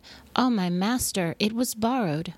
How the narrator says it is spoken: cried and said

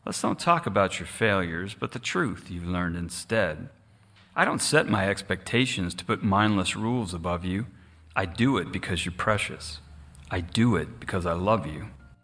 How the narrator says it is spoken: the shepherd gently said

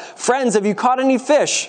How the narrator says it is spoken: he called out

